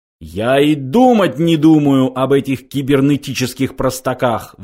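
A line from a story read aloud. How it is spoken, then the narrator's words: Roar. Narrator (Russian): взревел он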